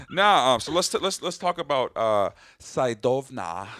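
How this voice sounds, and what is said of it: Put-on Russian accent. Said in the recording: “talking with a Russian accent”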